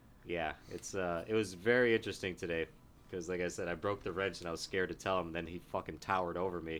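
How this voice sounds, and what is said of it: Usual voice. Nothing is said of it.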